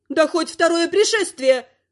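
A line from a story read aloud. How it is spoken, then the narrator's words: Woman barking. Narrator (Russian): Рявкнула женщина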